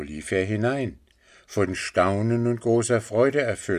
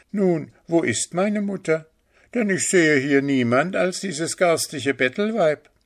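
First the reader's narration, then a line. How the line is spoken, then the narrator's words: Scornful laugh, mocking. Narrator (German): lachte er höhnisch und sagte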